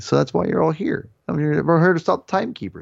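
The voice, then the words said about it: Poor imitation of another person's voice. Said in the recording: “my horrible Owen Wilson impersonation.”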